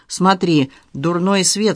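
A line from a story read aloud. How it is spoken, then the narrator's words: Plain. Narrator (Russian): сказал он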